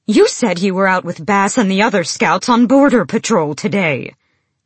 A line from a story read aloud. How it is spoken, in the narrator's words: Emrys barked